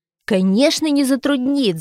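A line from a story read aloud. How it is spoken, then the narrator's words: Shouting. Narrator (Russian): закричал Витя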